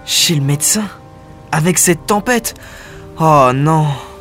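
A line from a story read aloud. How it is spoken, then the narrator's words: Sighing. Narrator (French): soupire Gaël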